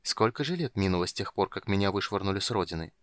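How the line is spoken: Muttering. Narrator (Russian): пробормотал он

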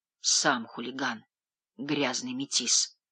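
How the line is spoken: Quiet muttering. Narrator (Russian): пробормотал он тихо

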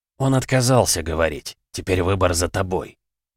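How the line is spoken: Cold, cruel voice. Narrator (Russian): произнес Кучаев таким холодным голосом, что даже сам поразился той жестокости, что в нем появилась

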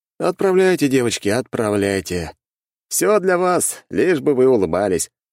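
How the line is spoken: Snorting. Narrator (Russian): хмыкнул я

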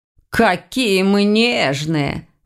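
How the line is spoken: Snorted. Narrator (Russian): фыркнул Ваня

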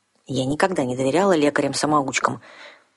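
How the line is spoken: Grumbling young woman. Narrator (Russian): проворчала девушка

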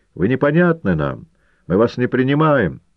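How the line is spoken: Squeaky young shout. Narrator (Russian): один из юных напостовцев пискливо крикнул из зала

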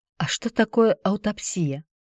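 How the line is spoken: Whispered question. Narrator (Russian): шепотом спросила Марина у Алины

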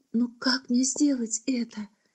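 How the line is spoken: Whisper. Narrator (Russian): прошептала она

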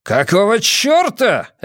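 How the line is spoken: Barked. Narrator (Russian): рявкнул Эмон

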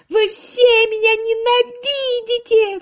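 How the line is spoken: Sobbing shout. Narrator (Russian): всхлипывая, кричала она

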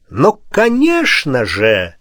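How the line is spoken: Eager exclamation. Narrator (Russian): с готовностью воскликнул Ченчи

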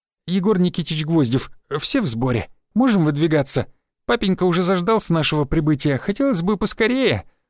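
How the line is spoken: Babbling guide. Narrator (Russian): лепетал наш проводник

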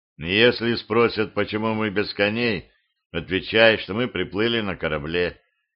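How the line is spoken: Quiet warning. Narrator (Russian): тихо предупредил Витя

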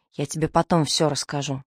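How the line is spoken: Whispering. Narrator (Russian): шепнул дядя Игорь

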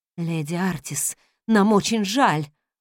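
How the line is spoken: Breathy exhale. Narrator (Russian): выдохнул он

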